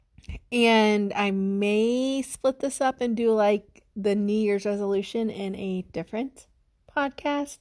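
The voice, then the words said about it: Sick-sounding voice. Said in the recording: “as you can tell, I sound sick.”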